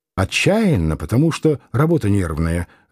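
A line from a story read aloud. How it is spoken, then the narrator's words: Gurgling fast secretive tone. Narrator (Russian): объяснил он, вздохнул, и вдруг в горле его забулькало, заклокотало, а говорить он стал быстро и уже каким-то секретным тоном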